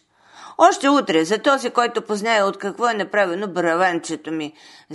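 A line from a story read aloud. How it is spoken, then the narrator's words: Laughing. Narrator (Bulgarian): засмяла се принцесата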